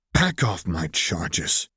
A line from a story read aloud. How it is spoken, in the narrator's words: he snarled, voice dangerously low, and layering threat upon promise upon threat into his voice